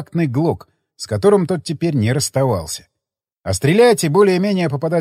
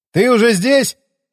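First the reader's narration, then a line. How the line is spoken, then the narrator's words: Shouting from below. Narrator (Russian): крикнул я снизу лестницы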